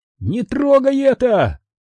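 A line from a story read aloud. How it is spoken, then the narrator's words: Two voices shouting together. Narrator (Russian): одновременно прокричали Чолли и Виз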